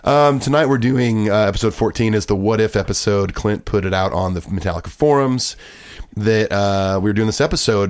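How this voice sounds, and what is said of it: Hoarse voice. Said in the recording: “my hoarse voice. I'm a little under the weather ... your weird voice”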